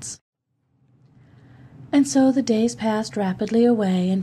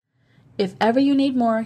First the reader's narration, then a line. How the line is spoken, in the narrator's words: he said